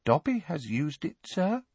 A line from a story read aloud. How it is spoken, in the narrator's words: said the elf, dropping his voice and looking guilty